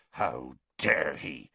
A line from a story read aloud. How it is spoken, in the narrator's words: Hagrid growled